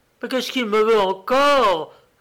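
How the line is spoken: Exclaiming. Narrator (French): s'écrie Paola

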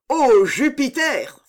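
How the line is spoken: Crying out. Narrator (French): s'écria Chilon

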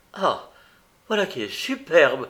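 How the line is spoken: Exclaimed. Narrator (French): s'écria-t-elle

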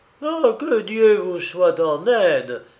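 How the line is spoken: Trembling exclamation. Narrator (French): s'écria en tremblant de tous ses membres

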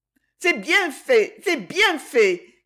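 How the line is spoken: Crying out through tears. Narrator (French): cria Jenny au milieu de ses larmes

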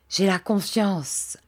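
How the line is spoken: Solemn tone. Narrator (French): ajouta-t-il d'un ton solennel

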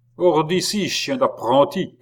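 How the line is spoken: Shouted. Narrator (French): cria l'autre

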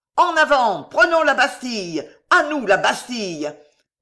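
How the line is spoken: Frenzied crowd bellowing. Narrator (French): vociférèrent les enragés, emportés dans un grand souffle de folie

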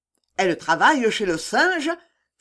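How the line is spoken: Resentful exclamation. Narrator (French): s'écria la Bassindre, qui avait toujours sa réception sur le cœur

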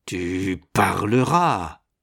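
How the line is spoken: Growled. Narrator (French): gronda-t-il

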